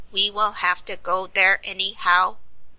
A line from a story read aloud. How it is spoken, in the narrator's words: remarked Tick-Tock in his jerky machine voice